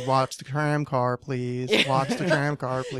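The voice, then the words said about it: Nasal imitation of tram announcement. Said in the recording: “really annoying. ... Nasally voice.”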